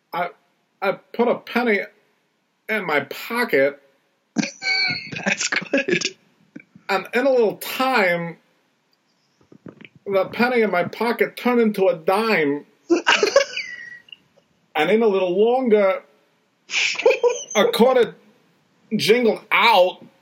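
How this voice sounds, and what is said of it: Imitates another person's voice. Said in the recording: “That is one of the best impersonations you've ever done”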